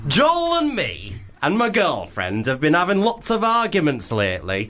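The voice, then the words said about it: Put-on Leeds accent. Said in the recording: “should we do a Leeds accent? ... I'm sorry if it doesn't sound Leeds. Maybe it'll be Hull.”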